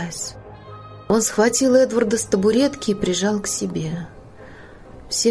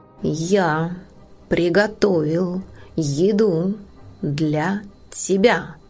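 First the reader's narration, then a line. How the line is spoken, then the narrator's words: Clipped, measured. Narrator (Russian): отчеканил Нил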